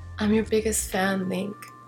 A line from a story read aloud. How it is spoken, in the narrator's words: answered calmly